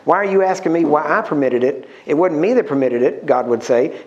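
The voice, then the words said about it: Texan accent. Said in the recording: “the Texan accent”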